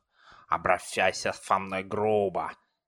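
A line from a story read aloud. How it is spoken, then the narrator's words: Lisping. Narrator (Russian): прошепелявила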